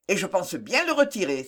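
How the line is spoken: Exclaimed. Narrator (French): s'écria Ginès

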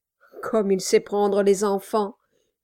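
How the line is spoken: Murmured. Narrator (French): murmura Brass

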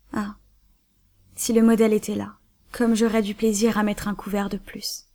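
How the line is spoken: Old servant sighing. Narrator (French): soupira le vieux domestique

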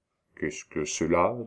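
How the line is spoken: Plain. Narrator (French): demanda Aubry

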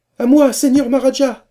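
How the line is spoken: Shouting. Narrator (French): cria Babert

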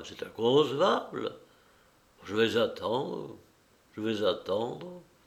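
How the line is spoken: Murmuring. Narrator (French): Il murmura

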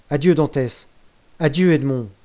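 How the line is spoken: Exclaimed. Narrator (French): s'écria Mercédès

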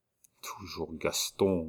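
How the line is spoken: Half-voiced murmur. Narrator (French): murmura le régent à demi-voix

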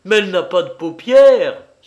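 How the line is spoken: Exclaiming. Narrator (French): s'écriait Mirland

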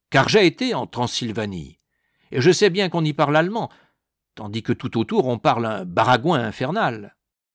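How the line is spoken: Exclamation. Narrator (French): s'écria le capitaine

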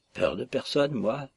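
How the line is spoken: Murmured. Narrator (French): murmura Paklin

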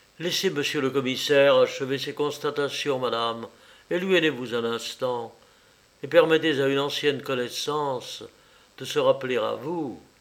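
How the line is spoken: Very gentle. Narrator (French): lui dit le plus doucement qu'il peut

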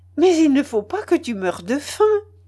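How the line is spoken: Laughing. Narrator (French): dit-elle en riant

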